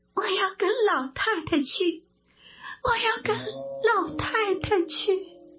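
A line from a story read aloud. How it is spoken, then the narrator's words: Tearful, repeated. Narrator (Chinese): 鸳鸯哭昏在地，他苏醒过来，口口声声说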